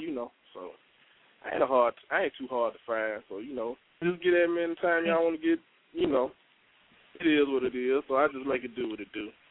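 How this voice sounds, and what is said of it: Southern US accent. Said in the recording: “yo, the South. I love the accent.”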